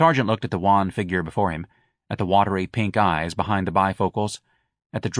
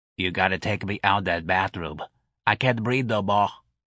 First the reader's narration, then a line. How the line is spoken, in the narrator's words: Patrolman Mancuso leaned against the sergeant's desk and wheezed